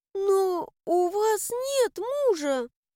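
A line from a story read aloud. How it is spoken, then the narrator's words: Frightened maid's babbling. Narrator (Russian): пролепетала в конец напуганная горничная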